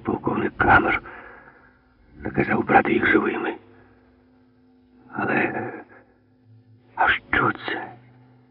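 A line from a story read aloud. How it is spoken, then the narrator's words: Soldier's whispered question. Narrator (Ukrainian): Тепер уже пошепки запитав солдат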